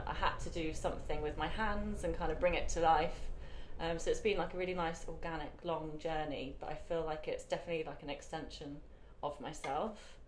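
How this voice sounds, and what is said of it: British accent. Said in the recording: “probably from my accent, you can tell I'm British ... I love your accent ... I love British accents.”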